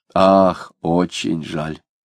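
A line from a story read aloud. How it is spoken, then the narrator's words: Sighing. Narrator (Russian): вздохнул Захарий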